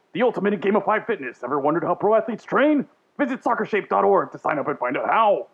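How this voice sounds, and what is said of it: Over-the-top radio ad announcer voice. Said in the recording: “let me put on my radio voice ... borderline Randy Savage ... wacky, over the top, like car dealership guy on the radio ... I was doing the monster truck guy”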